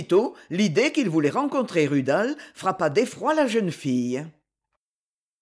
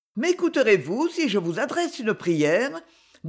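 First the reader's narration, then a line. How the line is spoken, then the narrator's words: Brisk, lively. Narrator (French): dit-elle vivement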